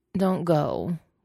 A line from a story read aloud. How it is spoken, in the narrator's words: Wei Wuxian mumbles